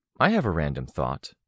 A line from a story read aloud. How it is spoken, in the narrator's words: said